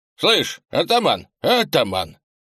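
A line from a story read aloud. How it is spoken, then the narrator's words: Cheerful shouting young lad. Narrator (Russian): весело кричал молодой белобрысый парень, почти мальчишка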